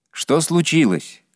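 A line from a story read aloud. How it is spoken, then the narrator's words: Loud carrying shout. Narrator (Russian): крикнул я, чтобы было слышно за воротами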